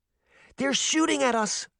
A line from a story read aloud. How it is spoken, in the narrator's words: Daphne exclaimed